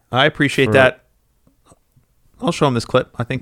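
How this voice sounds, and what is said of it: Weak, cracking voice. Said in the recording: “his voice cracked. It was such a weak fucking appreciation ... That's why my voice is cracking.”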